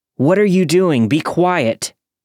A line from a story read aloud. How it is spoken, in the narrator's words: I continued to yell